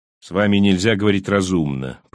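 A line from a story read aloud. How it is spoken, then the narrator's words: Grumbling mutter. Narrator (Russian): пробурчал Лоу-старший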